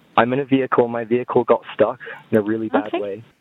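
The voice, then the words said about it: New Zealand accent. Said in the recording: “accent? ... He's New Zealand. He's from New Zealand.”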